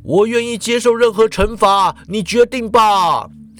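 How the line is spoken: Sudden impulsive shout. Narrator (Chinese): 皮瑞索斯却突然在冲动之下，他大叫了

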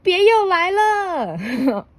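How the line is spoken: Shouting. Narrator (Chinese): 鼹鼠大叫

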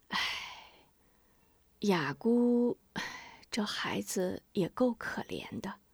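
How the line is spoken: Sighing. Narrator (Chinese): 吴夫人叹了口气

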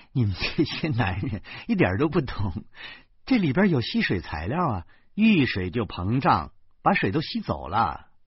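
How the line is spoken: Laughing. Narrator (Chinese): 售货员笑着说

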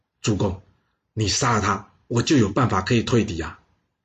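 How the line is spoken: Whisper in ear. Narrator (Chinese): 公孙交呢，凑到姬库的耳边，小小声的跟他说

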